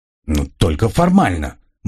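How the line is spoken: Displeased grumble. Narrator (Russian): буркнул Грегор, явно не очень довольный моей самодеятельностью

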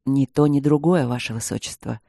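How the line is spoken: Calm reply. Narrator (Russian): спокойно ответил Кембридж

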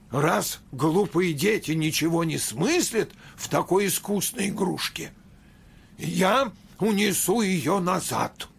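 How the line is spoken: Angry. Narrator (Russian): сердито сказал родителям Дроссельмейер

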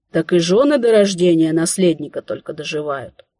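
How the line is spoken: Sighing. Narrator (Russian): вздохнув, собеседница

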